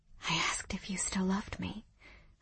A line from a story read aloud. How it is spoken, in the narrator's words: I whispered